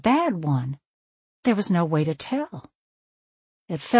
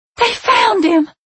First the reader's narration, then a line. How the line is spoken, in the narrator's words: she screamed in a state that could only be described as manic